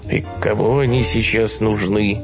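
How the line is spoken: Grumbling crowd. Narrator (Russian): ворчали люди

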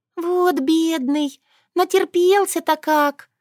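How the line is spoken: Pitying sigh. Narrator (Russian): вздохнула жалостливая Шушана

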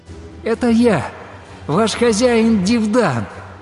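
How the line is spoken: Joyful full-voiced shouting. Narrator (Russian): радостно во весь голос стал кричать

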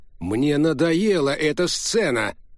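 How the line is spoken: Barking. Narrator (Russian): рявкнул Гарри

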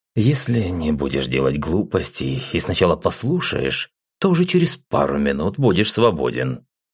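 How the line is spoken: Said with a snort. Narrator (Russian): хмыкнув, произнес

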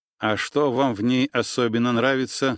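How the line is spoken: Plain. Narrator (Russian): спросил я

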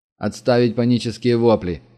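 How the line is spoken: Forced confident tone. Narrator (Russian): сказал Денис, пытаясь говорить уверенным голосом

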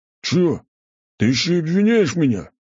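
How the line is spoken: Big man's growl. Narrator (Russian): зарычал здоровяк

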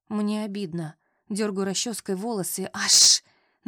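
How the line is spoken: Hissing in pain. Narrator (Russian): Начинаю шипеть, потому что чуть не выдернула прядь

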